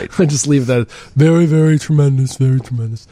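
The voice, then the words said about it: Imitates another person's voice. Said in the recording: “Thanks for that impression”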